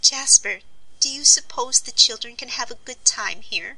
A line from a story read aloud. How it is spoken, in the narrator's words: pursued Polly anxiously